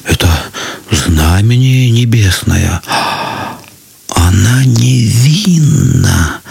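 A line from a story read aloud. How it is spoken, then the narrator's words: Many voices whispering. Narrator (Russian): зашептали многие, но не смели сказать этого вслух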